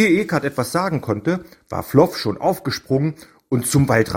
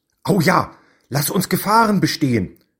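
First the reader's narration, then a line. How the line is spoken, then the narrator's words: Called out. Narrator (German): rief Floff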